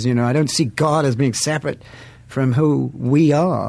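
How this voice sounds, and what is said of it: London accent. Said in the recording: “with your accent, you can say "dig this." ... from the streets of London.”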